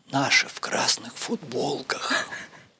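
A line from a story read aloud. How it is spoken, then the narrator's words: Whispered. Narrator (Russian): шепотом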